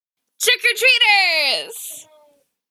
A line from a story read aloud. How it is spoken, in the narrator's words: Wei Wuxian shouted